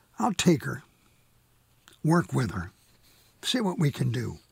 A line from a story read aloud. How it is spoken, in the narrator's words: says